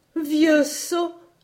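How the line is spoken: Exclaimed. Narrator (French): s'écria-t-elle

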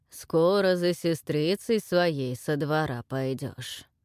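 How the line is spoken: Sudden creaky voice, smiling. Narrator (Russian): проскрипел вдруг доселе молчавший Волхв и с улыбкой

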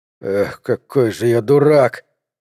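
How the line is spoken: Creaky voice. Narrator (Russian): проскрипел Гард

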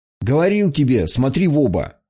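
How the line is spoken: Angry shout. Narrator (Russian): сердито прикрикнул дядя Сергей

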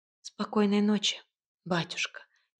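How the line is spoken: Quiet. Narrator (Russian): тихо ответила Василиса

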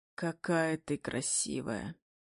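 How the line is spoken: Husky whisper. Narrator (Russian): хрипло шепчет Зейн

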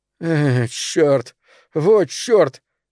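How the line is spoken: Loud sob. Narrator (Russian): Билли громко всхлипнул

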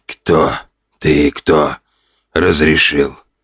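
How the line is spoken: Hoarse wheeze. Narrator (Russian): прохрипел мужчина на кровати

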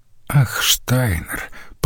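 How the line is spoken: Muttered. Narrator (Russian): пробормотала она

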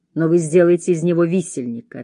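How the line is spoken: Plain. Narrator (Russian): ответила я

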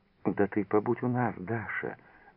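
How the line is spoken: Affectionate. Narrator (Russian): ласково обняла ее за плечи Лиза

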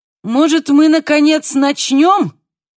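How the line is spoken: Shouted. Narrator (Russian): крикнула Жулиана Канто

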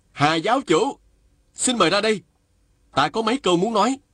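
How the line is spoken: Loud call. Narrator (Vietnamese): chàng lớn tiếng gọi

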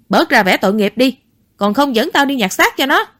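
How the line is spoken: Yelling. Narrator (Vietnamese): Tam Béo tiếp tục gào thét

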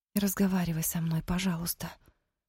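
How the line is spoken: Quiet plea in Romani. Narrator (Russian): попросила она тихо, по-цыгански

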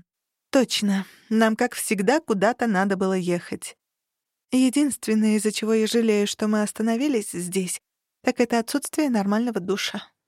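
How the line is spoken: Sighing. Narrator (Russian): вздохнула я

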